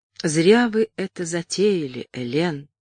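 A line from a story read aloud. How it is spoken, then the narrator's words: Soft gentle speech. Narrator (Russian): мягко проговорил Гулд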